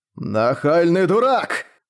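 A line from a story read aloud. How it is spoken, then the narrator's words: Growled. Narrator (Russian): прорычал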